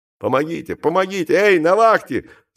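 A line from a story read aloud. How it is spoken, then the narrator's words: Assistant yelling. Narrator (Russian): завопил помощник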